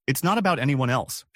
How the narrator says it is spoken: she said

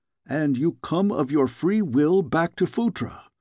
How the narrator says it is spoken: exclaimed one of the guardsmen

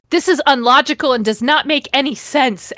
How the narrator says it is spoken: Ebony bellowed out to the air

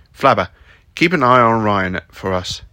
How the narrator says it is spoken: said Roland

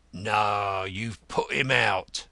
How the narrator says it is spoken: growled the gentleman himself

